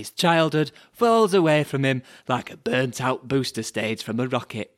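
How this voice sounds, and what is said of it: Silly, childish put-on reading voice. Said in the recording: “It's actually easier to do it in a stupid voice. ... it's so kiddie. And it's not just the voice.”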